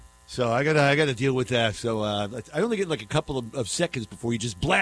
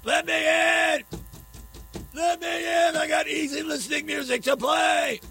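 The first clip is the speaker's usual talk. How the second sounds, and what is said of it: Screaming imitation of impatient colleague. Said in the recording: “he's screaming. I can hear him.”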